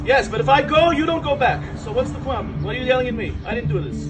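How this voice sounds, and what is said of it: Thick New York accent. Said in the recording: “with a thick New York accent”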